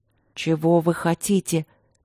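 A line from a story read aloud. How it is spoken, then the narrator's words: Lifeless voice. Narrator (Russian): мертвым голосом спросила Екатерина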